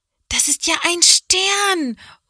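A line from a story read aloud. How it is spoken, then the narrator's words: Calling out. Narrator (German): ruft Johanna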